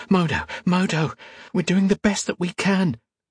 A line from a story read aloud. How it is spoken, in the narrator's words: said urgently